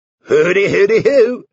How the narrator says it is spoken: chuckled, in the low, easy-going tones which they all knew so well

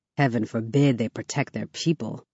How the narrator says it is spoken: I mutter

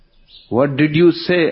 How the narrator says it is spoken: asked Pearl

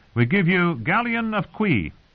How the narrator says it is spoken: one cried

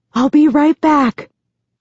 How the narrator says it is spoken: I whisper

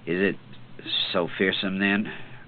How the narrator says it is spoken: Cort muttered, as in his sleep

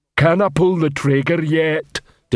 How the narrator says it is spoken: Detritus rumbled into the man's ear

